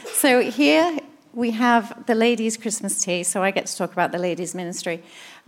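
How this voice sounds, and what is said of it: English accent. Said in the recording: “now you get the English accent”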